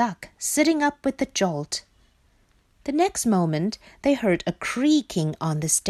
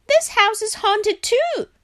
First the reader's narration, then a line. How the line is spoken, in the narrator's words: shouted Frog